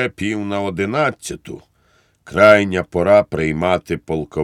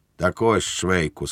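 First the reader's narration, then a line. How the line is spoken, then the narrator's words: Solemn tone. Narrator (Ukrainian): сказав урочистим тоном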